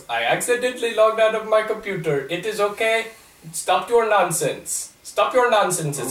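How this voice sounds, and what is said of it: Put-on generic Indian accent. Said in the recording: “I'll do generic Indian accent ... Not racist Indian accent ... best attempt at sounding like someone who speaks with an Indian accent”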